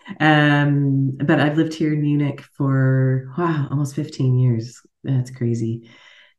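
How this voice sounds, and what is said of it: American accent. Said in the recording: “as you can hear from my accent, I'm an American.”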